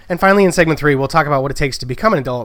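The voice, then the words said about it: Worn-out, tired voice. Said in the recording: “I've been doing a lot of talking today, and my voice is a little worn out.”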